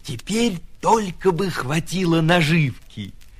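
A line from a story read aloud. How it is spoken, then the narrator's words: Whisper. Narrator (Russian): прошептал ежик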